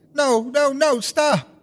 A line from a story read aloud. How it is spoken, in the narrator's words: She screamed again